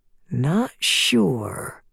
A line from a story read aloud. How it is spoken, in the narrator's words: Matthew murmurs